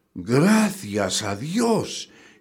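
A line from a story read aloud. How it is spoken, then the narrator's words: Man exclaiming. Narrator (Spanish): exclamó el hombre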